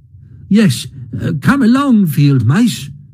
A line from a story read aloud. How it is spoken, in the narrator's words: cried the Mole eagerly